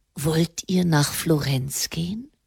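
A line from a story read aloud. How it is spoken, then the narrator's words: Pope asking quietly. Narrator (German): Der Papst fragte leise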